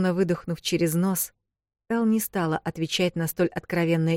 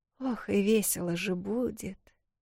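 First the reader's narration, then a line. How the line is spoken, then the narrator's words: Barely audible mutter. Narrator (Russian): Еле слышно пробормотала себе под нос Вэл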